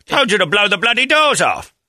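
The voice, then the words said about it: Imitates another person's British voice. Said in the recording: “Michael Caine ... I love that guy's voice, though. I don't know what his accent actually is in the Great Britain.”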